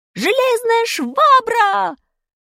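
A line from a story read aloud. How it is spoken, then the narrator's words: Shout. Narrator (Russian): Крикнул кто-то из наших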